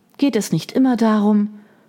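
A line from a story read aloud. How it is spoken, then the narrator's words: Sighing. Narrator (German): Margaret seufzte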